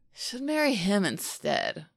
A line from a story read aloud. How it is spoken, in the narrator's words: the guy slurs